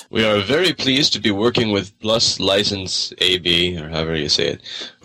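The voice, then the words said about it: Deep voice. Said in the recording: “you get that awesome ... deep voice.”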